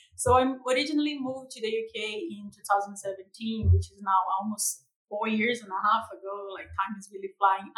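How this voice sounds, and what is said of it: Brazilian accent. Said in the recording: “my tropical accent that is pretty like Copacabana. I'm from Brazil.”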